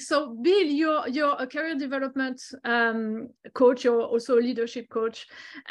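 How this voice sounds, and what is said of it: Strong non-native accent. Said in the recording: “I hope everyone is uh, is okay with the accent because I cannot turn it down”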